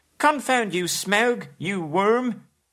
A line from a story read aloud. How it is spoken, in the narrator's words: he squealed aloud